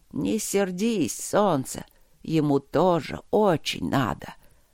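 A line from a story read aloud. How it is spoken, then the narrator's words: Creaky voice. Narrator (Russian): проскрипел он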